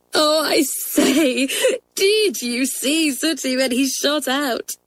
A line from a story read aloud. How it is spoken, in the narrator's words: cried Tessie